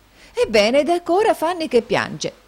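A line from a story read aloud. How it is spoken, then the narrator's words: Astonished exclamation. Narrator (Italian): esclamò la signorina Price, di nuovo stupita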